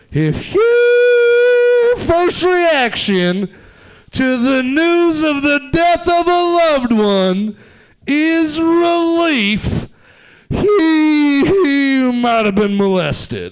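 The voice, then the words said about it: Imitates another person's voice. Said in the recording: “my impression of Jeff Foxworthy”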